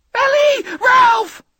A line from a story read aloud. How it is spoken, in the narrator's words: Pi screamed